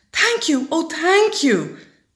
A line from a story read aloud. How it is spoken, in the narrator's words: grateful witch cried